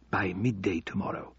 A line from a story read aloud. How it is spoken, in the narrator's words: whispered Al-Obeidi